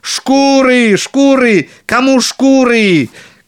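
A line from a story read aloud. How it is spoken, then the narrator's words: Shouting again. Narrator (Russian): кричал опять большой Клаус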